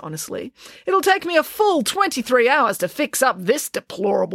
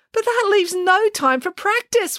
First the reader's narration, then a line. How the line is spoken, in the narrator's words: wailed Samantha